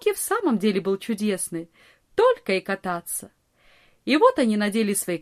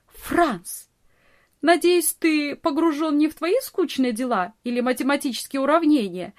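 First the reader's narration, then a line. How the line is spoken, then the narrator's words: Laughing, teasing scold. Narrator (Russian): смеясь, журила его Нонни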